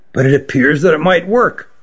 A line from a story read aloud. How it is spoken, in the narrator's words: he said quietly